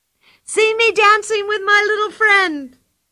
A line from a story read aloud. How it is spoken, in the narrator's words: cried Pippi